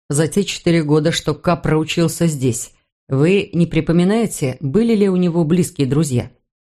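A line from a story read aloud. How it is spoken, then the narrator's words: Plain. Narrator (Russian): спросил Мур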